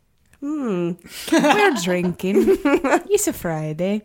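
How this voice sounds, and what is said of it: Weird mixed Irish-Italian accent. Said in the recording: “That was like a Irish and Italian accent. ... It's a weird Irish Italian.”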